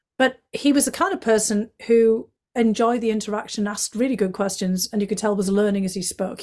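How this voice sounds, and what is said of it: North East English accent. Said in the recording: “my accent. He said, "Where's that accent from? ... it was from County Durham”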